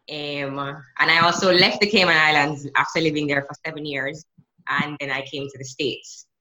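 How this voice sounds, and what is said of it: Jamaican accent. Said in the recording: “I still have my Jamaican accent.”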